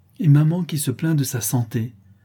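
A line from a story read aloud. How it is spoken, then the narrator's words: Irritated exclamation. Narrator (French): s'écria-t-elle avec humeur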